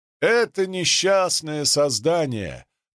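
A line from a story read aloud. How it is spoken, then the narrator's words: Shouted over noise. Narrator (Russian): прокричал Сикейр сквозь нарастающий шум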